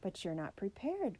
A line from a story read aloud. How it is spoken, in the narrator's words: cried a teammate of the missing debater